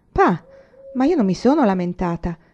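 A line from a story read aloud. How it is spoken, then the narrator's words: Surprised exclamation. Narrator (Italian): esclamò Laura sorpresa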